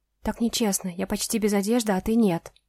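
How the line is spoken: Whisper. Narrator (Russian): прошептала я

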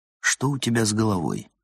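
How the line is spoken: Very quiet question. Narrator (Russian): спросил он очень тихо

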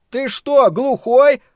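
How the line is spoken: Indignant shout. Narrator (Russian): возмущенно крикнул Том

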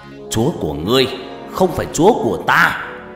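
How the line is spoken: Yelling. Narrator (Vietnamese): Trọng gào lên

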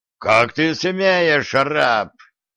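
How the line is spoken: Menacing guard's roar. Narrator (Russian): Еще более грозно взревел стражник

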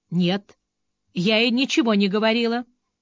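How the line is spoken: Calm. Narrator (Russian): достаточно спокойно сказала Мэгги

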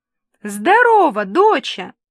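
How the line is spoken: Father yelling. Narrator (Russian): заорал папенька

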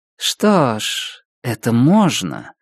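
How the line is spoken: Drawling. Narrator (Russian): протянула Дениз

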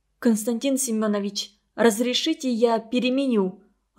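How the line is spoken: Timid request. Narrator (Russian): робко попросила

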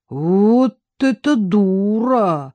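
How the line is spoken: Surprised drawl. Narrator (Russian): удивленно протянул гость

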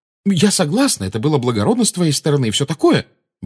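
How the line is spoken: Said quickly. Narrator (Russian): быстро сказала Гермиона

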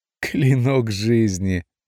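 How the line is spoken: Loud laughter. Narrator (Russian): расхохотался Дейнель

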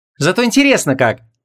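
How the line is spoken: Cheerful reply. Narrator (Russian): Весело откликнулась вон

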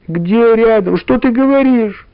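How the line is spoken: Frightened shout. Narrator (Russian): испуганно закричала Валя

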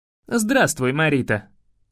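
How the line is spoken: Cold. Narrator (Russian): холодно сказал я

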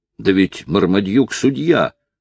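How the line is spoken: Indignant exclamation. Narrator (Russian): негодующе воскликнул Ричард

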